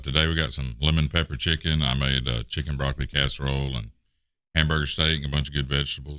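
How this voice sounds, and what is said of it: Deep, low morning voice. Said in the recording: “I think your voice gets lower in the morning ... the bass is boom, boom, boom”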